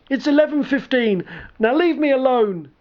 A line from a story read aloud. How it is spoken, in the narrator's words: The man called out